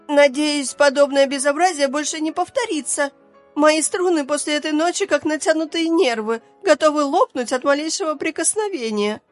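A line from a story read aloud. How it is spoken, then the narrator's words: Capricious shriek. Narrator (Russian): капризно взвизгнула скрипка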